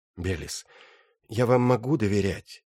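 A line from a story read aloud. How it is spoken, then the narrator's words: Sighing. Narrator (Russian): Иоганнес вздохнул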